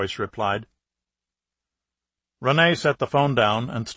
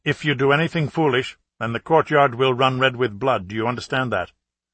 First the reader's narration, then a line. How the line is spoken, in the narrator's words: Rene went on firmly